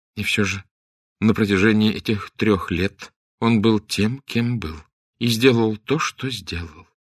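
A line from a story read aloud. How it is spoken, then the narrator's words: Sad, without contempt. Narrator (Russian): грустно сказала Арабелла, без всякого намека на презрение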